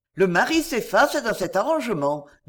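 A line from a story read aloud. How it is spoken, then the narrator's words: Cheerful. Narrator (French): dit gaiement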